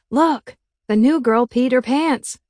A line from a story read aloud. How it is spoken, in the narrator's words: boy yelled